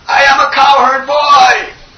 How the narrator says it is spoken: They were roaring

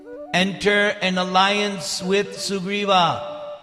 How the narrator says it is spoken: As he disappeared into the sky, the Gandharva called out

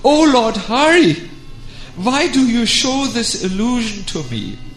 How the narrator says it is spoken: cried out

